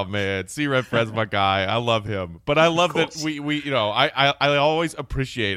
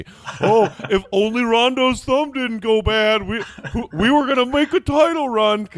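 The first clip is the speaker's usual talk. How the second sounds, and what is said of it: Dim-witted Bulls fan voice. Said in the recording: “sound like C. Red Fred ... my unintelligent Bulls fan impression”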